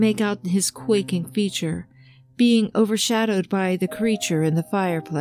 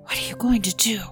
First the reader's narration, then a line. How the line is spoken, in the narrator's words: Eddie whispered